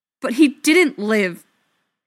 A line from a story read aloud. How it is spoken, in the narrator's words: Feely snaps